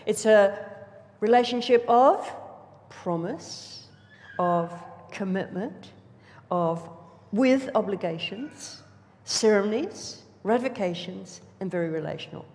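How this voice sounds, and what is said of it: Speaks slowly and deliberately. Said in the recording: “I said it slowly.”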